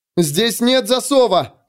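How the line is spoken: Barking shout. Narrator (Russian): гаркнула она

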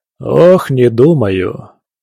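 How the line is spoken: Heavy sigh. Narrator (Russian): тяжело вздохнув

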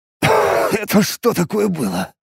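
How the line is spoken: Hoarse. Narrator (Russian): прохрипел я

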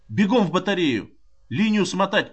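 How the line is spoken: Shout into phone. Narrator (Russian): крикнул Рандалу в телефонную трубку

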